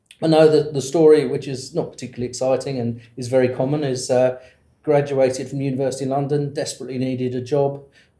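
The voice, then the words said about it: Lingering British accent. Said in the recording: “you can tell by the lingering accent that you grew up in the UK ... I haven't shaken off the accent”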